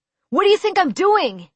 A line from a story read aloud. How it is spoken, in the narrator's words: replied sharply